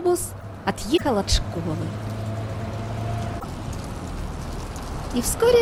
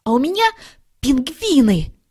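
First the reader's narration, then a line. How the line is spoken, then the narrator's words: Exclamation. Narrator (Russian): воскликнул Шмяк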